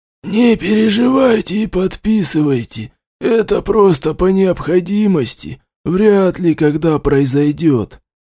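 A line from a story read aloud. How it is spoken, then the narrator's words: Hoarse whisper. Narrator (Russian): сипло шептал мужчина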